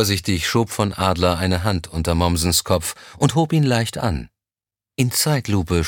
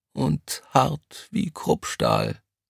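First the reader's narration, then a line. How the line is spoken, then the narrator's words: Quiet reply. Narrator (German): kam es leise zurück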